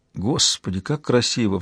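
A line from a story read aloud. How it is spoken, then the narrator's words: Sighing. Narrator (Russian): вздохнул шериф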